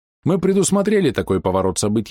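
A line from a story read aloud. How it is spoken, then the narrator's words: Calm reply. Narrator (Russian): спокойно ответил Гришаев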